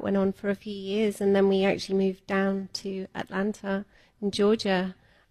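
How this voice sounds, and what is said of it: English accent, southwest England. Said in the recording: “So Australian? ... We're from the UK. ... I'm gonna say English. ... I can't catch the accents. ... I just knew there was one. ... Devon. I'm from Devon ... Southwest”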